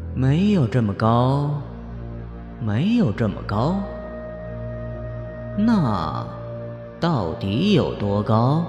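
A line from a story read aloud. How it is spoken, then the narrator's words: Eerie voice. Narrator (Chinese): 方墨声音相当诡异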